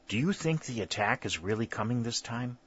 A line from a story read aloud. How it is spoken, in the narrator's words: whispered Langdon